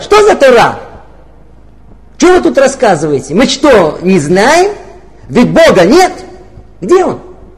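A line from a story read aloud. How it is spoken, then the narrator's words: Loud angry shout. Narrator (Russian): одна женщина громким голосом так рассерженно прокричала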